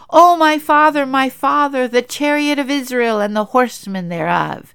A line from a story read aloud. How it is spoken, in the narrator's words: The king came and visited and cried out